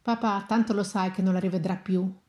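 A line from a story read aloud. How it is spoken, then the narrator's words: Light, almost offhand tone. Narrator (Italian): Parlò in tono leggero, quasi superficiale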